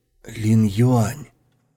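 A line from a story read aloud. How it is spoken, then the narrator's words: Soft, gently spoken. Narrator (Russian): Слова сорвались с кончика его неонового языка и мягко скатились вниз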